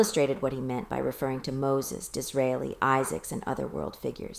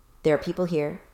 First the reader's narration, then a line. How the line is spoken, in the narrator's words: said Mr